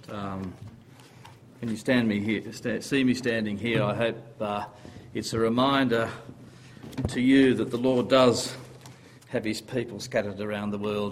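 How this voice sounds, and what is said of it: Australian accent. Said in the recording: “I hope you understand my Australian accent. I was born with it.”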